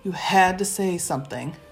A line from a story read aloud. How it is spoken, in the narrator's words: I told Bast weakly